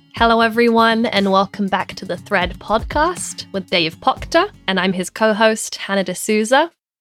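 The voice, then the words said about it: British London accent. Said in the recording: “her British accent kicks in and there sometimes an R shows up after ... My accent is stronger. ... they can probably tell by your accent. You're actually from London”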